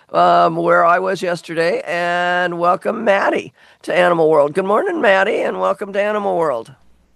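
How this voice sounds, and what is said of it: Worn-out, strained voice. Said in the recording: “this is how I lost my voice. I wore out my voice yesterday ... my voice is not the greatest today because I kind of wore it out yesterday”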